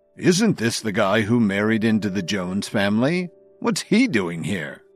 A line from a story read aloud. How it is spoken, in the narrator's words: Blair turned toward Kevin and sneered